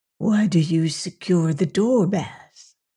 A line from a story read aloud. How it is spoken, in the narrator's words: whispered